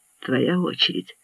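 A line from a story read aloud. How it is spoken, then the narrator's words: Throaty, barely audible command. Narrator (Russian): гортанно, еле слышно скомандовала она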